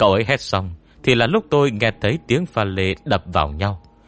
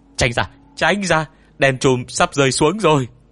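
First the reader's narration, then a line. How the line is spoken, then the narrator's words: Urgent shout. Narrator (Vietnamese): giọng Tôn Mầm hét lên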